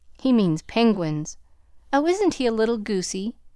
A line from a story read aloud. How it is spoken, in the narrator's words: laughed aloud